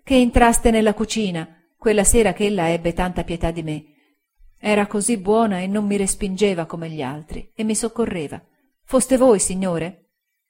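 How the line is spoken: Voice choked with tears. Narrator (Italian): ella disse con voce soffocata dal pianto

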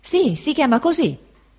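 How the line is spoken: Exclaimed. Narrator (Italian): esclamò il pescatore Peggotty

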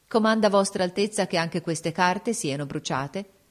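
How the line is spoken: Cold. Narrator (Italian): e volta freddamente alla principessa

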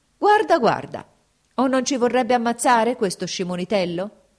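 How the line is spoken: Shouted by soldiers. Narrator (Italian): gridano gli usseri

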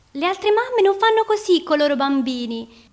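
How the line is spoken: Shouting. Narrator (Italian): gridava

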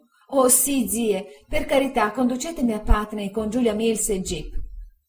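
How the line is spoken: Crying exclamation. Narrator (Italian): Dora, piangendo, esclamò

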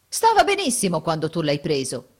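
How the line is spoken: Indignant exclamation. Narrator (Italian): esclama indignato

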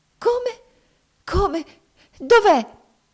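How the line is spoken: Frantic exclamation. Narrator (Italian): esclamò essa fuori di sé medesima

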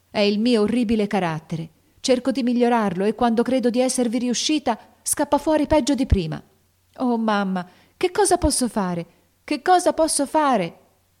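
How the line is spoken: Desperate girl exclaiming. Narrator (Italian): esclamò la povera Jo con accento disperato

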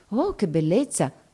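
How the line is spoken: Many murmuring together. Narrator (Italian): mormorano tutti

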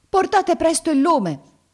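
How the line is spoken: Servant shouting. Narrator (Italian): gridò la sua serva

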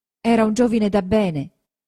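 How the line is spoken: Steady, sure voice. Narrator (Italian): disse Lucia ma con voce sicura

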